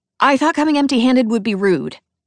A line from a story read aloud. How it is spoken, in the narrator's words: I blurt out